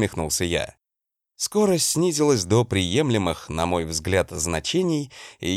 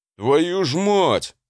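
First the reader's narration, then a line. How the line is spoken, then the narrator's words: Howling. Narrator (Russian): взвыл он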